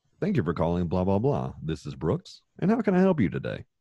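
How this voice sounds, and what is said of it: Professional phone voice, automated-sounding. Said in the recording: “I sounded like an automated system ... my phone voice is different from my normal voice, your professional voice”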